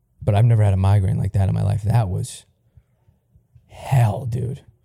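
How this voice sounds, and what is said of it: Rough, strained voice. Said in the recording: “you kind of hear it in my voice from puking my fucking brains out”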